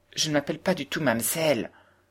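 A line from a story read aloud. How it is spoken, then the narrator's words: Indignant exclamation. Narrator (French): s'écria à son tour Heidi avec une certaine indignation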